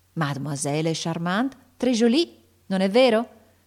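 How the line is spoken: Shouted with affected admiration. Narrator (Italian): gridò Ortensia con affettata ammirazione

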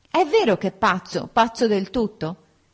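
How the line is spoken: Shouting. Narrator (Italian): Gridò

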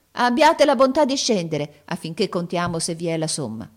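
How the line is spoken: Exclamation. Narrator (Italian): esclamò

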